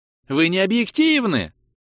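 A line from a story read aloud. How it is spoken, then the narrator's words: Shrill shout. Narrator (Russian): визгливо прокричал Маур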